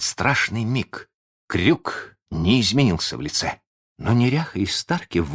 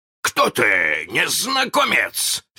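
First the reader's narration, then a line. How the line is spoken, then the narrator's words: Shout. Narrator (Russian): закричал он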